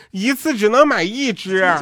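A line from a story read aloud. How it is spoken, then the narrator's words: Sudden loud shout. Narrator (Chinese): 急中生智大喊说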